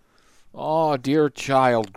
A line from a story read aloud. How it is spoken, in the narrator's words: groaned Midas dolefully